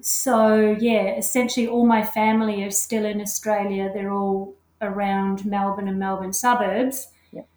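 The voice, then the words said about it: Australian accent. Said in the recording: “I am actually Australian. You can certainly hear that in my accent.”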